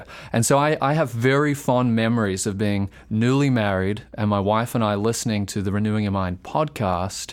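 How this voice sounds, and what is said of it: Australian accent. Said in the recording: “I was not in Central Florida, what they might be able to tell from my accent. I was in Australia.”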